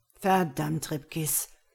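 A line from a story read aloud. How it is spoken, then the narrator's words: Growled. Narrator (German): knurrte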